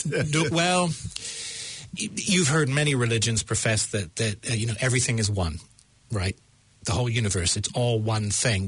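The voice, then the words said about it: American accent. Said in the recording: “American... My American accent.”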